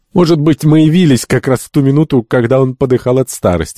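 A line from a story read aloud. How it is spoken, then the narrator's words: Laughing. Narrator (Russian): засмеялся доктор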